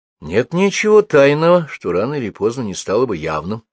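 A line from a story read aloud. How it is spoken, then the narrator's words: Calm remark. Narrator (Russian): спокойно заметил Назаров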